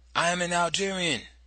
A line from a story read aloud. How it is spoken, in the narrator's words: shouting